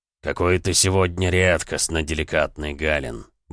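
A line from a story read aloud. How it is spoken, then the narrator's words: Grumbling. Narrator (Russian): бурчал Эмик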